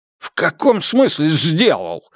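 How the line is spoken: Barked. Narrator (Russian): рявкнул Джен Линь

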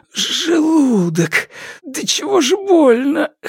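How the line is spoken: Hoarse pained male mutter. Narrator (Russian): хрипло пробормотал мужчина

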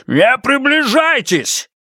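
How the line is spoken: Shouting. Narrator (Russian): Он закричал

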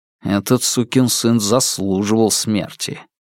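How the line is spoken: Quiet angry muttering. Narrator (Russian): появился гнев, некоторые даже негромко пробормотали

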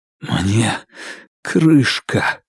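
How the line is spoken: Hoarse. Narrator (Russian): Его голос был хриплым

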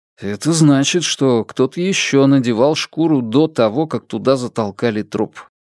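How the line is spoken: Plain. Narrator (Russian): ответил Фан Му

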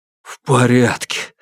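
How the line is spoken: Breathless exhale. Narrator (Russian): выдохнул Юань Сяофэн

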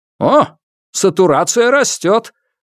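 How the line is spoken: Sudden exclamation. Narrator (Russian): внезапно воскликнул заведующий Лю

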